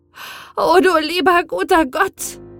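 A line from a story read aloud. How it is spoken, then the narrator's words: Exclaimed. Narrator (German): rief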